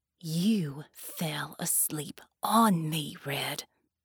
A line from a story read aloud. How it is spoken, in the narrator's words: Mel hissed